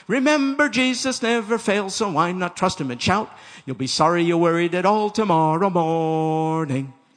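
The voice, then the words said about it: Slight put-on Irish brogue. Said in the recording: “Did you pick up a bit of an Irish brogue over there?”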